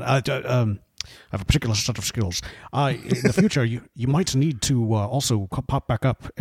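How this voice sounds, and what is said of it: Decent Liam Neeson impression. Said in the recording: “that's a pretty decent Qui-Gon there, or the Liam Neeson impersonation.”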